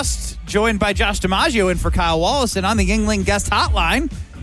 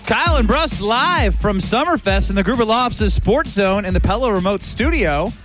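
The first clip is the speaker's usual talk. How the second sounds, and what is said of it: Radio announcer voice. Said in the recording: “Why'd you go radio announcer voice there?”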